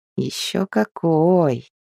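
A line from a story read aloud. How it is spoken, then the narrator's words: Purred. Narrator (Russian): Промурлыкал Мэл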